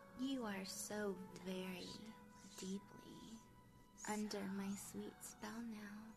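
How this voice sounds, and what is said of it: Sexy, alluring, warm voice. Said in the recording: “my sexy, alluring, enchanting voice ... my voice is so strong ... my warm,”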